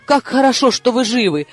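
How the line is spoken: Exclaiming in broken English. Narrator (Russian): воскликнул он на ужасном английском

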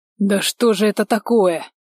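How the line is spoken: Irritated muttering. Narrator (Russian): Раздраженно пробормотал Иральд

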